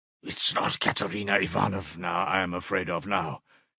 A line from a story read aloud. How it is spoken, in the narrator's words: muttered in agitation